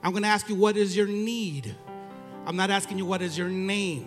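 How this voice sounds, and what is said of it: Mexican accent. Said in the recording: “my Mexican accent. Sometimes it doesn't come out.”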